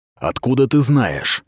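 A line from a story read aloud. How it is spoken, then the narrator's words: Impatient hiss. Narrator (Russian): Нетерпеливо прошипел Сахал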